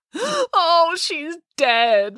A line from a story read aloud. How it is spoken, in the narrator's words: wailed Matilda